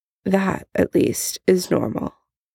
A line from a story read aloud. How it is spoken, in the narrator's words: muttering under his breath